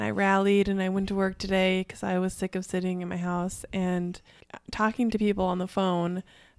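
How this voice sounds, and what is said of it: Raspy, nasal sick-sounding voice. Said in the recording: “my voice sounds weird ... it's a little raspy ... You sound really nasally.”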